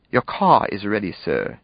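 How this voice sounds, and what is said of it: Put-on British accent. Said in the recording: “Sock affected a British accent.”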